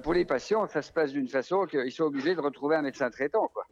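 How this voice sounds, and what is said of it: Slight Vosges regional French accent. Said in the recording (French): “Il y a un petit accent, oui. J'entends l'accent. C'est quoi un accent de l'Est ... c'est un accent franc-comtois ... non, c'est un accent vosgien.”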